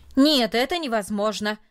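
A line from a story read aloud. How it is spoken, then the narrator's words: Loud and firm. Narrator (Russian): сказал он, наконец, громко и твердо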